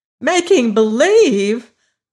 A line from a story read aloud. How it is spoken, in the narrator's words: cried Dorothy